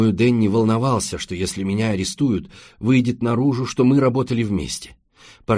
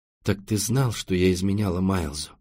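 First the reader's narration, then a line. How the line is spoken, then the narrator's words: Sighing. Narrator (Russian): вздохнула Лайза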